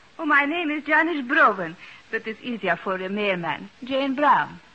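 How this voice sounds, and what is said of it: Speaks with a foreign accent. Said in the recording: “you still speak with an accent?”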